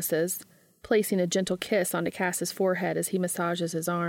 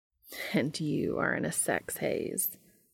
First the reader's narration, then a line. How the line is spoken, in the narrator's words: points out with a low chuckle